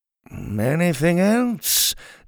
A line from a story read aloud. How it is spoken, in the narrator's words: finally said in a cheery voice